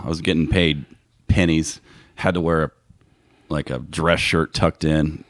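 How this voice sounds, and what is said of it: Disgusted tone of voice. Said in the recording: “You can hear the disgust in my voice.”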